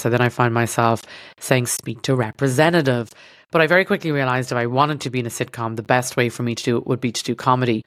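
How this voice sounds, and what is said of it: Irish accent. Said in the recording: “can't understand my Irish accent”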